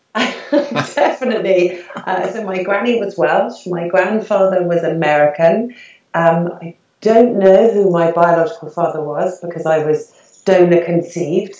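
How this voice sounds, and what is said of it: British accent. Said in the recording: “I detect a British accent ... Yeah, very British, I think.”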